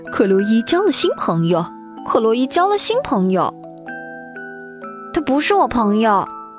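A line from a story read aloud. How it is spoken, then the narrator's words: Quiet muttering. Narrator (Chinese): 安德鲁小声嘀咕道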